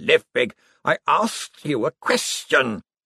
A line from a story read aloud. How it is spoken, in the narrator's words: Slant growled